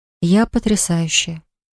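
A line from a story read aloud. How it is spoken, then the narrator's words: Quiet. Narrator (Russian): тихо произнесла Поля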